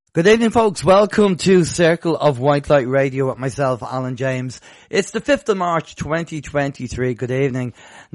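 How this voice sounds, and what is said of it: Rough, hoarse voice. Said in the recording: “My voice is still a little bit rough. I'm sure you probably can hear. On the radio, it's a little bit rough.”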